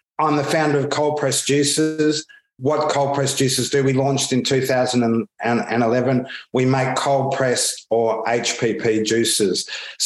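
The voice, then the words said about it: Australian accent. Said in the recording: “You can probably pick up already from my accent that I'm Australian.”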